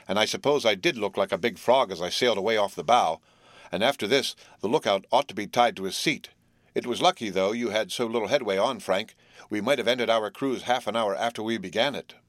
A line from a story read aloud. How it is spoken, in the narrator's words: grunted Jerry